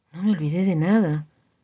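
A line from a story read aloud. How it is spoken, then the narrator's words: Mother, resigned voice. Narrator (Spanish): preguntó la madre con voz resignada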